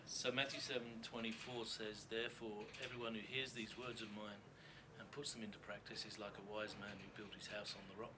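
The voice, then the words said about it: English accent. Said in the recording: “I love your English accent in the scripture.”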